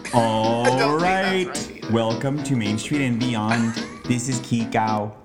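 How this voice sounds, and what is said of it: Weird robot-like voice. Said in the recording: “Why are you using that weird voice? ... I was just having a moment of like, I'm a robot.”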